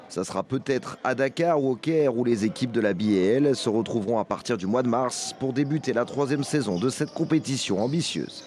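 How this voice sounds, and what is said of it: French spoken with American accent. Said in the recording (French): “et son accent américain”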